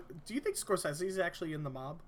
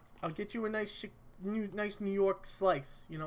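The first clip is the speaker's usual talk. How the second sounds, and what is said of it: Thick put-on New York accent. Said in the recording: “a thick New York accent.”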